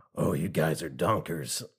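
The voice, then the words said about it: Impression of Pete Sassafras. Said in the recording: “I'm going to go Pete Sassafras. ... I thought I could do a better Jim Cummings than I can.”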